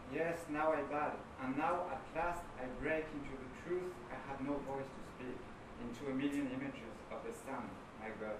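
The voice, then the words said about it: French accent. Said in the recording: “in your beautiful French accent”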